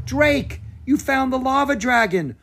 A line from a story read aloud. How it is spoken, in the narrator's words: Bo cried